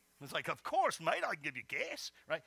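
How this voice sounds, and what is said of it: Put-on Australian accent. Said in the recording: “a really cool Australian accent”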